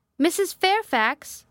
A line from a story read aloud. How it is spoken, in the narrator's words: I called out